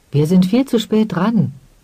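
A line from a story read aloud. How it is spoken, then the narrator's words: Woman calling out. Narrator (German): rief die rothaarige Frau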